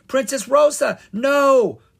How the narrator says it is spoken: Kara cried

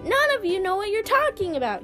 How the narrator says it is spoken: he cried with disgust

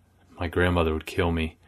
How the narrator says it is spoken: whispered

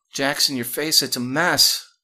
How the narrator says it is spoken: Shayla said desperately

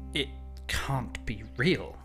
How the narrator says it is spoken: he stammered

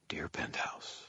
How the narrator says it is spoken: I muttered

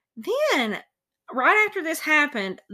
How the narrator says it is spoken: the entity exclaimed

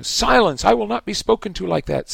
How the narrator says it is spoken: Snape shrieked, looking madder than ever

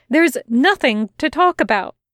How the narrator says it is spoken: Aziraphale said quickly and as firmly as he could manage

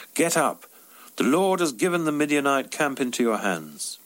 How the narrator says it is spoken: called out

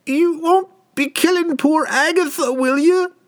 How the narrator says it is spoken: she pleaded

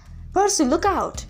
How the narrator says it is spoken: Annabeth cried

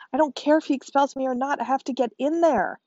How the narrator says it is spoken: shouted Alfie

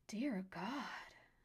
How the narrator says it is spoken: Nora gasped as something rushed past her, brushing her leg only slightly but making her jump all the same

